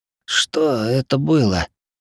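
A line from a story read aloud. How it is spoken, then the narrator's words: Hoarse, rasping voice. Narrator (Russian): Голос хрипел точь-в-точь, как я слышал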